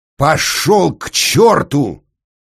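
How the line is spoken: Angry roar. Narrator (Russian): взревел утративший всегдашнюю учтивость инженер

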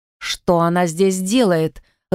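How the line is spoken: Growling. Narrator (Russian): рыкнула Джилл

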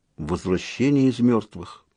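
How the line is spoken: Muttering. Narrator (Russian): пробормотал Лопсанг

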